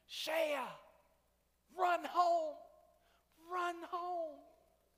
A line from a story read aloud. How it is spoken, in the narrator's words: Both teams now started screaming